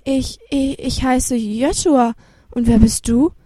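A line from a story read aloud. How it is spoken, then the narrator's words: Stuttering reply. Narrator (German): Stotternd antwortete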